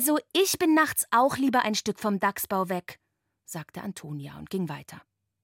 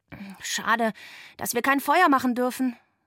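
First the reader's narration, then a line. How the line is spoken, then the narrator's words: Sighing. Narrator (German): seufzte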